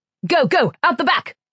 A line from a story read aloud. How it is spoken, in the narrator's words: shouted Koyich